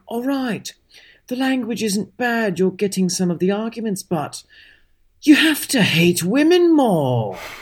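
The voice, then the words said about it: Put-on British accent. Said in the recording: “I only have one British accent. ... This is literally how he spoke, though.”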